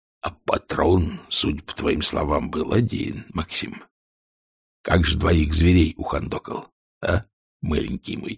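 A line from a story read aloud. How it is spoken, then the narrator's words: Mocking whisper. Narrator (Russian): Ванюшин по-шутовски шепнул Исаеву на ухо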